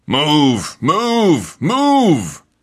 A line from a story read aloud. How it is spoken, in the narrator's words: bellowed